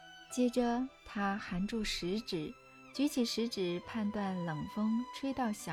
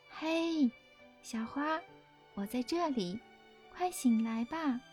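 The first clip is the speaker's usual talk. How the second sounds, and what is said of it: Soft, gentle quiet voice. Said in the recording (Chinese): “小声而轻柔地叫它”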